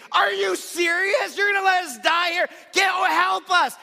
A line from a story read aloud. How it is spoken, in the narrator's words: I said, I screamed